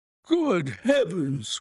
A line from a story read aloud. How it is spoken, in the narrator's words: cried the Colonel, laughing